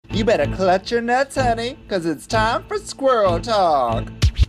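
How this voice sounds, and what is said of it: Unidentifiable put-on accent. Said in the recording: “I don't know what accent that was”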